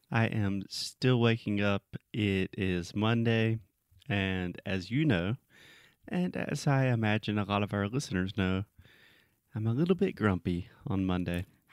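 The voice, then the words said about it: Sleepy-sounding voice. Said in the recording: “you sound sleepy.”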